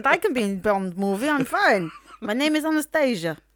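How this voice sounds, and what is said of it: Put-on Russian accent. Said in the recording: “do a Russian accent.”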